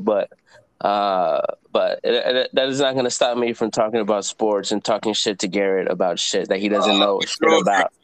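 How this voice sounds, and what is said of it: Sick, hoarse voice from cold. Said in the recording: “Sorry for my voice. I'm a little bit sick. I got a summer cold”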